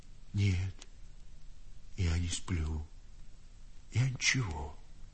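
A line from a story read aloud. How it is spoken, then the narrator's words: Timid old man, coughing. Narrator (Russian): сказал старик и робко покашлял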